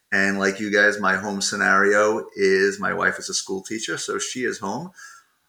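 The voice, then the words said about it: Long Island New York accent. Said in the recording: “I'm picking up a familiar accent to me as a former Long Islander”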